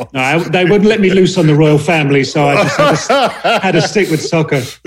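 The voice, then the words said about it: British accent. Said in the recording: “accent straight from the UK”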